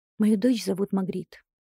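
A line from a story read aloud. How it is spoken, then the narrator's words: Calm but tearful. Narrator (Russian): спокойно отвечаю я и вытираю рукавом слезы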